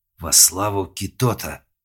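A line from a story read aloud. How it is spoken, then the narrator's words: Hiss. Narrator (Russian): прошипел Малк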